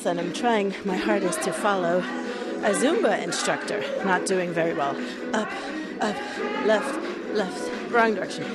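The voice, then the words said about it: Slightly out of breath. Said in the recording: “I'm a little bit out of breath”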